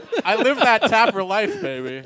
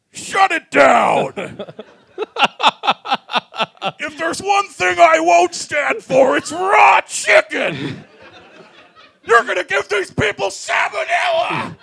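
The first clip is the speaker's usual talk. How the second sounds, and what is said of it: Imitates another person's voice, shouting. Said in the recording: “your Taffer impression ... Sounds a lot like your Jim Benning impression ... he leaned into it”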